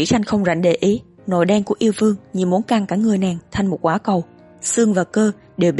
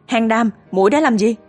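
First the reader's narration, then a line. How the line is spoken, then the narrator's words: Chilled, terrified shriek. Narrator (Vietnamese): nhất thời lạnh từ bàn tay đến tận tim, thét lên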